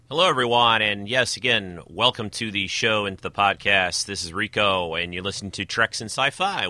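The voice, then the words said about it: Voice slightly off from a cold. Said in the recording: “my voice is a little off this week. I seem to have gotten myself a little bit of a spring-summer cold”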